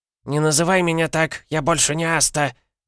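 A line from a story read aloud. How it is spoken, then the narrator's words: Old woman's shriek. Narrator (Russian): взвизгнула старушка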